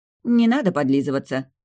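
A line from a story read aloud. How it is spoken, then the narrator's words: Snorting dismissively. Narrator (Russian): фыркнула я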